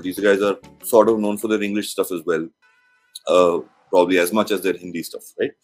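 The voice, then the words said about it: Indian-accented English. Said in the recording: “accent that I have when I'm speaking to you, which is an Indian kind of accent”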